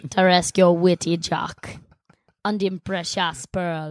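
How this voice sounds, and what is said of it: Put-on pirate-style accent impression. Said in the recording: “This is your one impression ... asked if you do accents”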